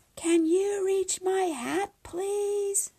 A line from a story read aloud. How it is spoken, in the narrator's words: Hunter called out